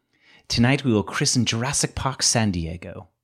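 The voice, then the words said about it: Imitates a film character's voice. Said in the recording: “my best Ludlow impression”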